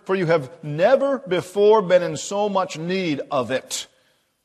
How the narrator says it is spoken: thundered the officer

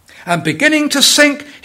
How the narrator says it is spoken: he cried

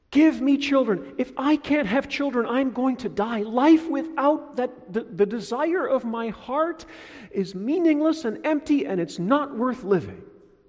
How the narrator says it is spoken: she shouts at Jacob

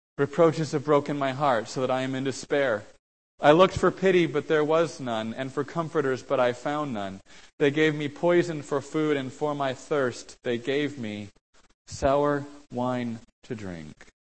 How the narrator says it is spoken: the innocent sufferer, who cried out

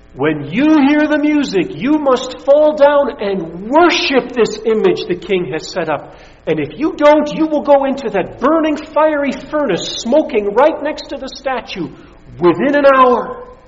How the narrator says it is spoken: having a herald shout for all to hear

